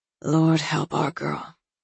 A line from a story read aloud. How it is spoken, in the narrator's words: Sophia said quietly